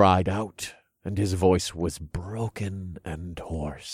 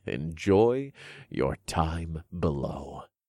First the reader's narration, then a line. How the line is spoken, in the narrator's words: I chuckled